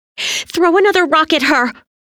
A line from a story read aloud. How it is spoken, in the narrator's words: Tina screamed